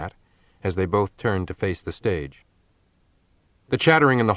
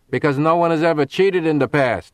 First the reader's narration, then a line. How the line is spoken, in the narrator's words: shouted Joe from the back of the hall